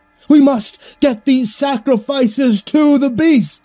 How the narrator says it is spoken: the robed man shouted

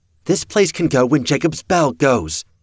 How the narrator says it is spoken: Miss Lewis called out

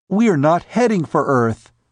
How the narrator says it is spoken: she cried

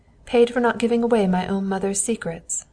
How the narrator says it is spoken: the boy laughed viciously

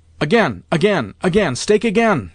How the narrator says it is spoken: shouted the old lady

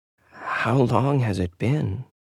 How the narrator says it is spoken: She whispered in a low tone

